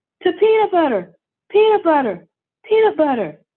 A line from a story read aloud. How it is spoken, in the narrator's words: everyone shouted